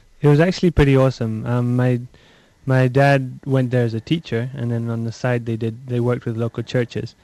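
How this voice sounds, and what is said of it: Faint Scottish accent. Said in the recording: “you've got a faint Scottish accent still, which is nice. I like a Scottish accent.”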